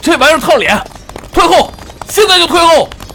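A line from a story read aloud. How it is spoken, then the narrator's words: Shouting at top of voice. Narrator (Chinese): 因为听不清自己的声音，只能扯着嗓子冲身下的尹昌喊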